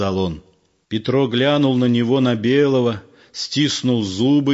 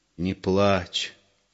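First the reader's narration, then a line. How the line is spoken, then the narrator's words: Soft plea. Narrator (Russian): тихо попросил Егор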